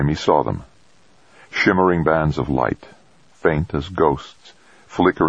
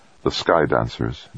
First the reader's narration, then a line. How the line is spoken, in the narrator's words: Jamie murmured, more to himself than her